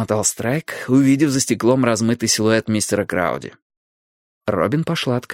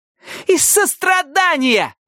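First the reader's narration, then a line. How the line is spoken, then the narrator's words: Exclamation. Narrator (Russian): выкрикнула Пиппа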